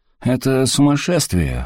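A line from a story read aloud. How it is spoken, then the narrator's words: Snorting. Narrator (Russian): хмыкнул До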